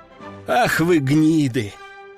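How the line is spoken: Breathed out. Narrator (Russian): выдохнул первый

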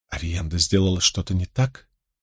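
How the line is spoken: Whispered. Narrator (Russian): Эгвейн прошептала

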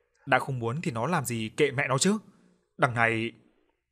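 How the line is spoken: Screaming. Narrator (Vietnamese): Bà Na gào lên

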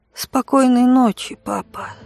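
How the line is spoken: Sleepy whisper. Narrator (Russian): Дар сонно прошептал

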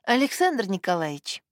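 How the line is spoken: Gentle. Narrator (Russian): мягко продолжала Элеонора Сергеевна

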